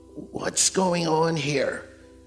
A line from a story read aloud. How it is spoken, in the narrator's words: A raspy voice pierced through the din